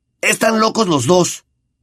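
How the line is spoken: Trembling voice. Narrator (Spanish): dijo Ron, con voz trémula

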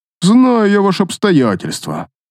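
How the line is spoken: Snorting. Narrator (Russian): фыркнул он

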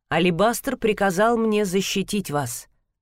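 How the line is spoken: Stern. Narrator (Russian): строго произнесла Ширайя

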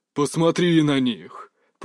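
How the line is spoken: Growled. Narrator (Russian): прорычал Юй

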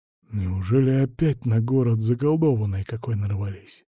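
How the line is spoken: Whispered guess. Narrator (Russian): почему-то шепотом предположил

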